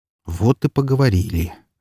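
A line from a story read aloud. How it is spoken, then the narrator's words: Sighing. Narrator (Russian): вздохнул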